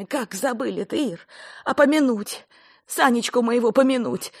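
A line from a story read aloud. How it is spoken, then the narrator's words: Loud sobbing. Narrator (Russian): громко в голос разрыдалась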